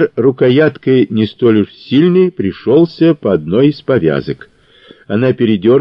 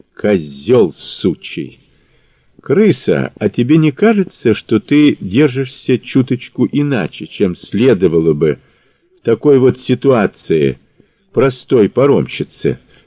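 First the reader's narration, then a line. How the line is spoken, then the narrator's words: Calm question. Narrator (Russian): спокойно спросил Мазур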